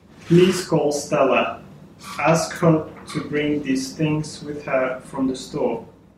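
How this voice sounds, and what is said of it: Russian-accented English. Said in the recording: “speaking Russian, and came to New York to work at an Australian bank. When he arrived, he sounded like this. ... that was a foreign accent”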